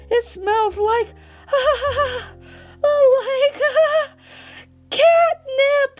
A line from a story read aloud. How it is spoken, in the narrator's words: he cries out